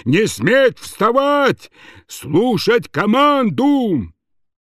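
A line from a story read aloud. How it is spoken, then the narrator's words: Piercing shout. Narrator (Russian): закричал своим пронзительным голосом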